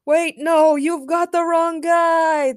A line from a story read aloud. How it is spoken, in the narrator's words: The Rock shouted as Supergirl flew him far, far away